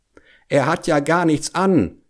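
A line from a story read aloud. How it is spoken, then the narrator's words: Whole crowd calling out. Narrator (German): rief endlich das ganze Volk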